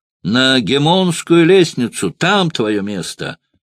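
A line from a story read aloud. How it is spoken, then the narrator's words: Shrill yelling. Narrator (Russian): вопил пронзительным голосом Эмилий Варин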